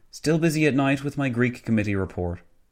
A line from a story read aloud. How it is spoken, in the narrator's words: Nicholson sighed, adding